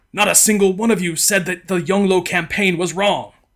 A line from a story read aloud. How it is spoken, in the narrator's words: in tears, berating them all, exclaiming